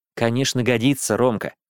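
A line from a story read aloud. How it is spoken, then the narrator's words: Gentle, smiling mother. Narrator (Russian): мягко улыбнулась мама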